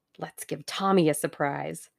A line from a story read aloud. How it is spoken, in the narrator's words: murmured Tuppence